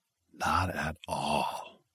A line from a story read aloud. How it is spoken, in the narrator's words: he finally said in a heavy whisper